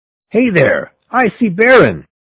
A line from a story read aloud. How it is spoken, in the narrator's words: I heard a voice shout